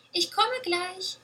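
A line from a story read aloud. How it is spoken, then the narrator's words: Little goose calling. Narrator (German): rief die kleine Gans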